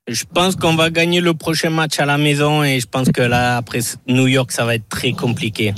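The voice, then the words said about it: Southwestern French accent. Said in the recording (French): “Cet accent du sud-ouest”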